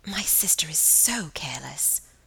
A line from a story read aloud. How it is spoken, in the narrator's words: whispered Margaret